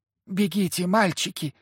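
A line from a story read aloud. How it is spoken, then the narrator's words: Woman whispering. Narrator (Russian): зашептала невидимая женщина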